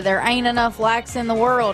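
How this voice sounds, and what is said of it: Imitates another person's voice. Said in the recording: “It's a very good impression”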